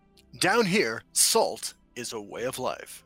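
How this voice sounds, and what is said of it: News reporter voice. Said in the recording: “Let me do news reporter voice.”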